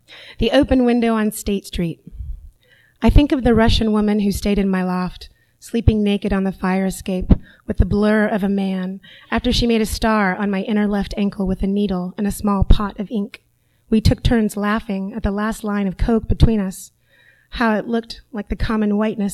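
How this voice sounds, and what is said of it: Husky, low voice. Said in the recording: “my voice is a little sexy tonight”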